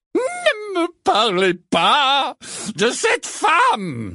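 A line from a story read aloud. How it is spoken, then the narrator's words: Crying out. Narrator (French): s'écria le professeur Trelawney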